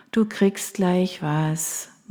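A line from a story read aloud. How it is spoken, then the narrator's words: Tired smiling murmur. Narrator (German): murmelte ich müde lächelnd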